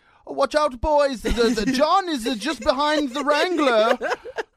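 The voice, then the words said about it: Put-on South African or Australian accent. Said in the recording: “Do that, do that accent. It's so good. ... I don't know if it's a South African. ... I like Australian.”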